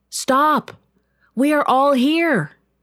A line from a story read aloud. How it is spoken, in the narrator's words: Paul called out